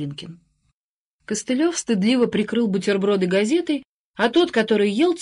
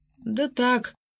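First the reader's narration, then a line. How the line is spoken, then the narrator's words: Mumbled. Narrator (Russian): промямлил Глинкин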